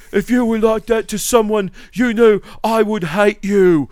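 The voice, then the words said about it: Overly serious, self-important band voice. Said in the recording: “uber serious ... I'm really saying something very important and you need to be listening to me right now ... my Idols impersonation”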